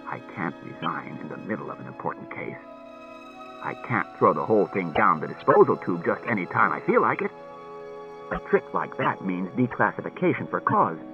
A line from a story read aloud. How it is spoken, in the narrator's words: Bailey said coldly